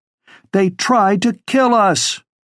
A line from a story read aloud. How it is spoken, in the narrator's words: she shouted over the rest